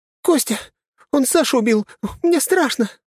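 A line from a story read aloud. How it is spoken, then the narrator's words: Frightened girlish squeal. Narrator (Russian): запищала сопля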